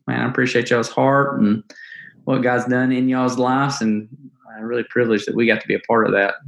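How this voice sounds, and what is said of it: Strong Alabama Southern accent. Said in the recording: “I haven't lost the accent, have I? ... I think I just got stronger. ... You still sound like you're from Bama”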